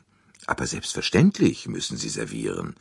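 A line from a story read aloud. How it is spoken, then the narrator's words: Plain. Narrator (German): sagte er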